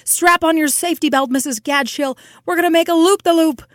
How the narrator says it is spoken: in a paroxysm of joy and shouted

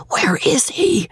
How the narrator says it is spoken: whispered the servant

